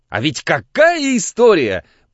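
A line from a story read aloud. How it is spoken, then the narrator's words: Nearly shouting, raised pitch. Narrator (Russian): почти крикнул Константин, вдруг беря тоном выше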